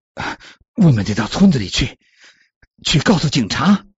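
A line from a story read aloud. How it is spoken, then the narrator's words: Breathless. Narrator (Chinese): 珍妮气喘吁吁的说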